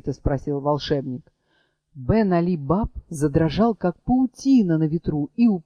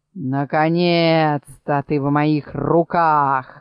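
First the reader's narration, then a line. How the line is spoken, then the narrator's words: Thunderous shout. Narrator (Russian): громовым голосом вскричал Мурвей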